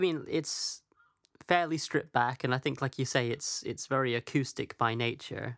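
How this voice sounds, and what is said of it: Usual voice. Nothing is said of it.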